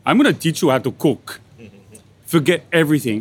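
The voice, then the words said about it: Put-on northern Italian accent. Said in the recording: “In his big, burly, northern Italian accent”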